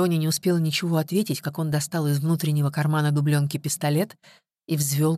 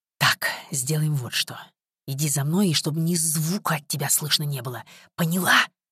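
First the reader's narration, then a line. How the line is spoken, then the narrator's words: Whispered command. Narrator (Russian): шепотом скомандовал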